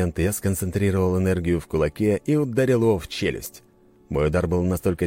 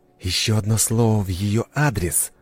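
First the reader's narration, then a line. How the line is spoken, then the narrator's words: Hiss. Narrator (Russian): прошипел я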